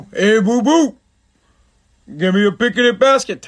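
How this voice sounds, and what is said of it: Poor cartoon bear character voice. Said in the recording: “Yogi Bear ... Terrible impression.”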